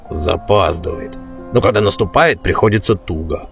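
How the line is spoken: Dwarf grumbling. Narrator (Russian): проворчал Бреннер боевой топор, рыжебородый дворф

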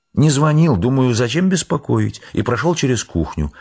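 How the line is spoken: Quiet, ingratiating thin voice. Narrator (Russian): отвечал полковник тихим, вкрадчивым, тоненьким голоском

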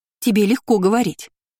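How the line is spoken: Snapped. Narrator (Russian): огрызнулась та

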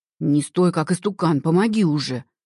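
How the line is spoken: Hunter's straining growl. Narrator (Russian): прорычал охотник

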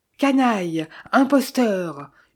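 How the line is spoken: Furious yell. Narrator (French): hurlai-je hors de moi

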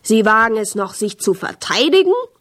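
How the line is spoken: Roaring in someone's face. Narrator (German): brüllte mir ins Gesicht

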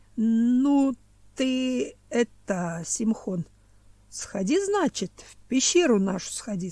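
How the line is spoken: Plain. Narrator (Russian): сказал он

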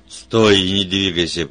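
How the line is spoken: Roared. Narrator (Russian): проревел Вульф

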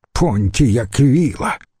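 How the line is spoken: Contemptuous snort. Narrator (Russian): презрительно фыркнул Брут

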